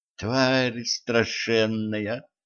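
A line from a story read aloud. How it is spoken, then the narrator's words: Whispering. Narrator (Russian): прошептала Кэтран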